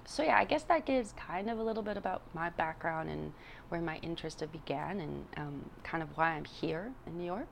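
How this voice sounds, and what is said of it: Non-native English accent. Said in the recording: “I bet you can hear that I have an accent”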